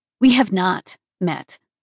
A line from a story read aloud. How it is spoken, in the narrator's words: I said firmly